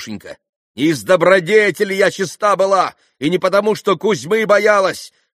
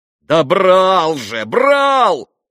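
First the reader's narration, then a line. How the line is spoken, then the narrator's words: Exclaiming. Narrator (Russian): воскликнул Митя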